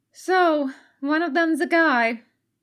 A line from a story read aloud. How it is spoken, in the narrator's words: Katsuko sighed